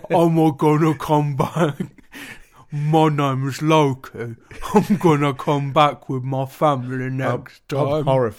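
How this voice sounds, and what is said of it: Deep voice with unclear accent. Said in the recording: “It was deep. It was trying to do a deep voice like Loki, but I don't know what the accent was.”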